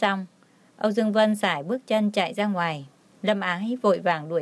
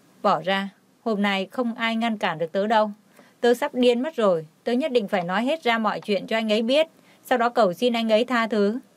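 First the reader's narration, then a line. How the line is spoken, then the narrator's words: Angry shout. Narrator (Vietnamese): Cô ấy tức giận quát lên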